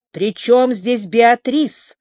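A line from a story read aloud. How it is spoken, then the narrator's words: Growled. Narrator (Russian): прорычал Марк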